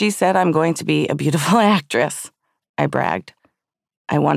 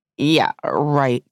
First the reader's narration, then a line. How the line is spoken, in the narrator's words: Todd scoffed